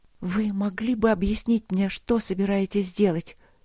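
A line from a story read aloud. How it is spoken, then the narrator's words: Heavy, quiet. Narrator (Russian): тяжело и тихо сказала Алина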